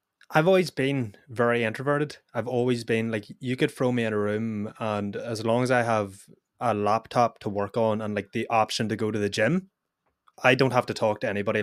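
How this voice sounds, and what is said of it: Northern Irish accent. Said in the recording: “you've got a Northern Irish accent”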